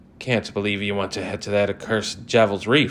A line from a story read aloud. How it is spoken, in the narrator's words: exclaimed